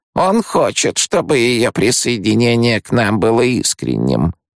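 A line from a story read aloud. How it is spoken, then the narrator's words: Grumbling. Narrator (Russian): проворчала преподобная мать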